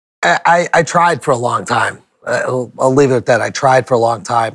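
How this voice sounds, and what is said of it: Boston accent. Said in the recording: “you got the Boston accent? ... Boston accent.”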